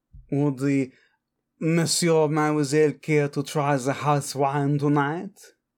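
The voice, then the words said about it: Put-on French accent. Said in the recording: “I will stop with the accent ... Speak like one of my French girls.”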